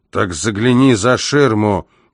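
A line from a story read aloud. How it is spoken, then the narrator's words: Stout policeman growling. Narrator (Russian): прорычал тучный полицейский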